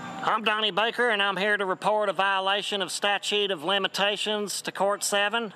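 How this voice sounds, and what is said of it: Indiana redneck accent. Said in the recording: “He talks in a Indiana redneck accent, which is very distinct.”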